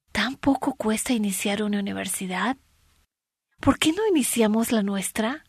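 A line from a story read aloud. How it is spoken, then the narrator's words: Soft female voice. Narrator (Spanish): La mujer se volvió a su esposa y dijo suavemente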